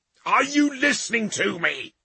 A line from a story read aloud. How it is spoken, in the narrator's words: the Ultramarine shouted